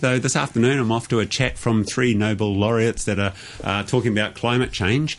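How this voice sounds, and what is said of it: Slight New Zealand accent. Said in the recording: “a bit of a Kiwi accent”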